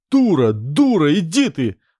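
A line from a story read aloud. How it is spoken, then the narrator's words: Shouting. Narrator (Russian): кричал на Наташку толкач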